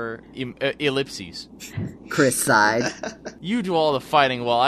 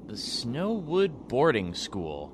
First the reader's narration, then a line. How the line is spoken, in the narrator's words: Chris muttered